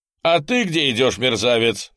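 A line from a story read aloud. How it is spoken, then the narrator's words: Officer shouting. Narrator (Russian): крикнул поручик Непшетшетский на другого солдата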